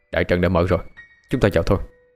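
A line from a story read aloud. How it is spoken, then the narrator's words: Cold, tense. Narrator (Vietnamese): Dương Phong lạnh lùng, tâm tình khẩn trương nói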